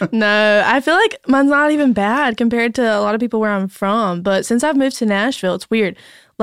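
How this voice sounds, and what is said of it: Thick Southern North Carolina accent. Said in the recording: “that Southern accent ... Thick North Carolina accent ... You got that molasses spilling out of your mouth.”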